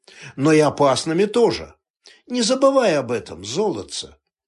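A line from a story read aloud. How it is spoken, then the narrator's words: Dry retort. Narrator (Russian): сухо парировал и добавил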